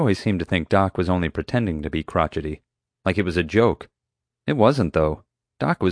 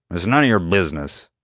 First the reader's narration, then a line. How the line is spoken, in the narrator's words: Doc growled